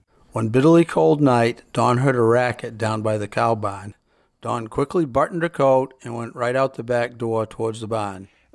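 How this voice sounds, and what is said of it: New England Yankee accent. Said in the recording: “the accent of New England ... that Yankee accent”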